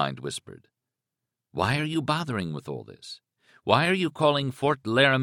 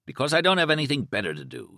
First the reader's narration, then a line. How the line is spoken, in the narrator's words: he answered himself irritably